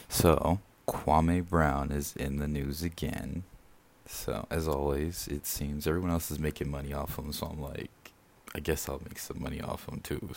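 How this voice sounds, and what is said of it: Low, just-woken-up voice. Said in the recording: “Sorry if my voice is so low, I just woke up.”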